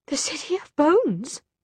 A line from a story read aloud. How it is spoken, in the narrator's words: she whispered